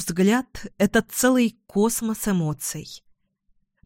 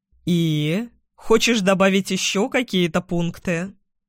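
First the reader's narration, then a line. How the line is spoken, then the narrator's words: Mocking snort. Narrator (Russian): насмешливо фыркает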